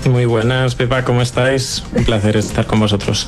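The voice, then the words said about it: Spanish from Spain accent. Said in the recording (Spanish): “¡Ay, amo ese acento!”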